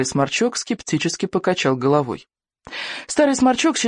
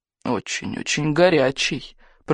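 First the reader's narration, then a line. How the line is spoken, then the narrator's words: Muttering under breath. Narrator (Russian): пробормотал он себе под нос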